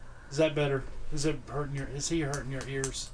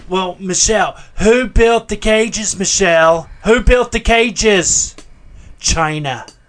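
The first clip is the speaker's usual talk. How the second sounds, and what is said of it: Imitates another person's voice. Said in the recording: “Is my Trump impression any better than it used to be? ... That was better than the Joe Biden.”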